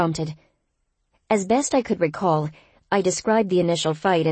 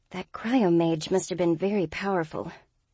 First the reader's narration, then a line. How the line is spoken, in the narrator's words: Sin murmured